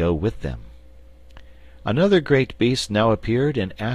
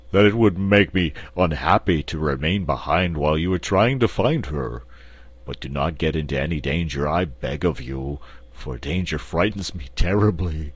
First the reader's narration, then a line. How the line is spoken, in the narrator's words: said the Cowardly Lion in his deep, rumbling voice